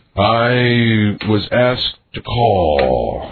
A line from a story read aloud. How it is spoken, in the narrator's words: said slowly